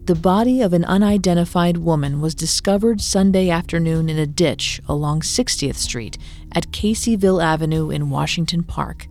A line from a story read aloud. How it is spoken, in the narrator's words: authorities said